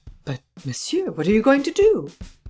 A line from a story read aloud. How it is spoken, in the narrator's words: Devanne exclaimed anxiously